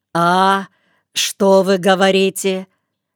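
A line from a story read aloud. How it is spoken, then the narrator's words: Loud deaf man's question. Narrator (Russian): громко, как все глухие, спросил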